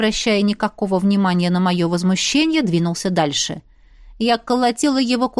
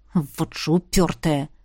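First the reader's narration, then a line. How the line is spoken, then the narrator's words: Grumbling prince. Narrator (Russian): Буркнул князь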